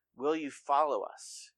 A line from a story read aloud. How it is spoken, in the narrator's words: he asked